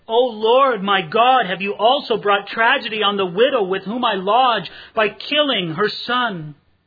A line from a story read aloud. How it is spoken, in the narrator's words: he cried out to the Lord and said